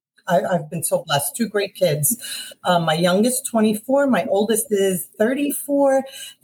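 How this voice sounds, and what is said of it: Thick Brooklyn and Bronx New York accent. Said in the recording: “Is that the accent that's making you call that out? ... It is indeed the accent. ... The two thickest accents combined, Brooklyn and Bronx ... So the thickest accent”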